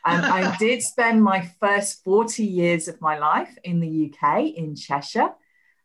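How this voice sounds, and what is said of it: English accent with Australian tinge. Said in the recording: “I'm not a true born Aussie, as you can probably tell from the accent. Although people in the UK, they now say I sound like an Aussie.”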